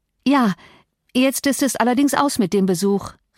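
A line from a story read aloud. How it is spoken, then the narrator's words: Calling out. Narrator (German): rief Catherine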